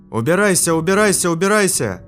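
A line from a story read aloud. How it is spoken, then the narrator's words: Yelling. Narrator (Russian): Я орал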